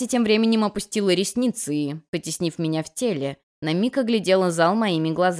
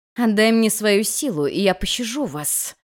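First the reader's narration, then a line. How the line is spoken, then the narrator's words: Growled. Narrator (Russian): прорычала она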